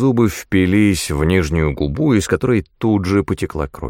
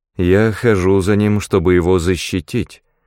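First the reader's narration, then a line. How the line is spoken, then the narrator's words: Flat impassive voice. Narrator (Russian): бесстрастным голосом произнесла Найда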